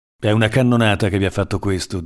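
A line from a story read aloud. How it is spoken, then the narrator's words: Plain. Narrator (Italian): disse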